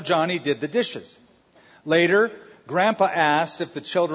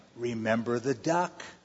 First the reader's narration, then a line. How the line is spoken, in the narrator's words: she whispered to him